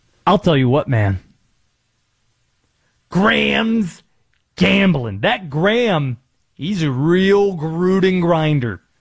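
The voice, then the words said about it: Jon Gruden impression. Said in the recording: “the Gruden accent. I should have probably answered that question fully in the Gruden voice... I'll do this tease in the Gruden voice.”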